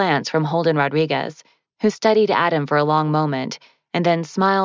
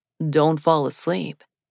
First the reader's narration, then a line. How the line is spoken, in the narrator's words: he murmured